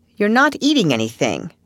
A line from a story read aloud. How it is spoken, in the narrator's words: said Marilla sharply